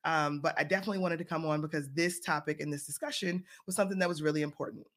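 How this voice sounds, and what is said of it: Scratchy voice from a cold. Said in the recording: “my children brought me a cold ... My voice is a little bit scratchy”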